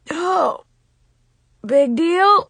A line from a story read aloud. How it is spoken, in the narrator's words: he said in a weak voice